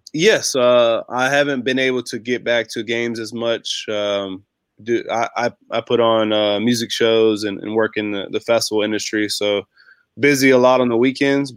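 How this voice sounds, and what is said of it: Slightly sick-sounding voice. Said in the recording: “I sound a little sick. ... just got a cold.”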